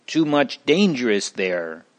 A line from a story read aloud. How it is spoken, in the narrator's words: they said